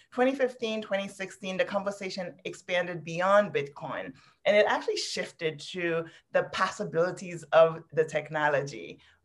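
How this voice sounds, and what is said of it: Haitian Caribbean accent. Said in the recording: “where the accent's from. I am actually from Haiti, from the Caribbean.”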